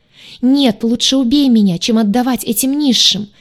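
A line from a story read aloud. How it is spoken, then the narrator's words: Despairing scream. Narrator (Russian): закричала Тайза, безо всякой надежды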